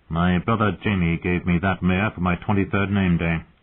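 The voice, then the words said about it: Flat, emotionless voice. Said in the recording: “in a flat voice”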